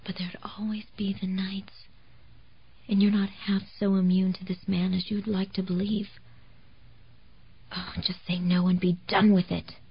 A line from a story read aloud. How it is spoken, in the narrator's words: a voice whispered